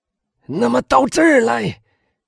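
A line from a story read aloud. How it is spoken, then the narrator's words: Shouting. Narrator (Chinese): 威尔夫……喊道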